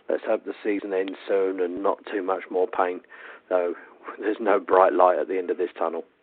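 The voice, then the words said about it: Drained, tired-sounding voice. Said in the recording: “you can tell from my voice I'm as drained as the rest of you”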